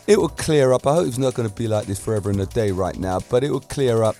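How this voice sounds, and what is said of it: Hoarse voice. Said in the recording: “my voice is still a bit hoarse.”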